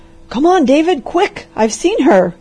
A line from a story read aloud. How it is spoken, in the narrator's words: cried the doctor